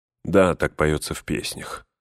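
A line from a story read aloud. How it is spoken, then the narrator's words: Weary reply. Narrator (Russian): устало отвечал Эомер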